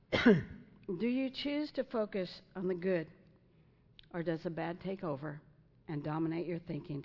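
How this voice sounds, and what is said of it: Strained, fading hoarse voice. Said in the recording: “I'm losing my voice. It's not a cough.”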